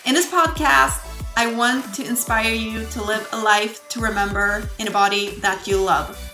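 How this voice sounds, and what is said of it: Swedish accent. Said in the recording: “I'm not a native English speaker ... my lovely Swedish accent.”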